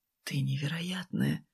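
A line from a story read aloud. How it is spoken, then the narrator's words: Whisper. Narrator (Russian): шепнул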